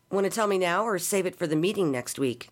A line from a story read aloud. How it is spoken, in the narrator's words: asked